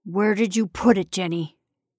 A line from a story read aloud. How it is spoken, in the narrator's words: Coldly, demanded